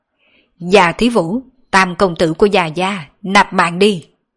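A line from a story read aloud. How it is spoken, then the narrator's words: Laughing loudly. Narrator (Vietnamese): Hai người kia cười to nói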